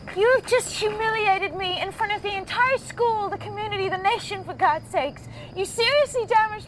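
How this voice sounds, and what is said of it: Accent wavering toward Australian. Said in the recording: “she is British, but I think she grew up in America, but she seems to be like wavering in and out of an Australian accent ... accent”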